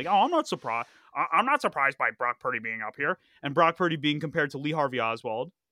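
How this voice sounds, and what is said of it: Kermit the Frog character voice. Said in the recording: “That was a very good impression by you. ... I've been working on my Kermit the Frog impression.”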